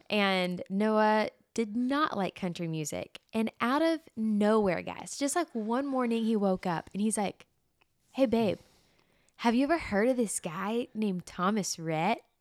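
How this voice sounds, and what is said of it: Southern American accent. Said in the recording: “My accent is so Southern, especially when you get me fired up.”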